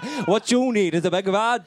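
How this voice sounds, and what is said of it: Put-on Welsh accent. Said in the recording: “In a Welsh accent.”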